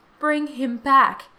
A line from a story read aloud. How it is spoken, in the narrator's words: cried the old woman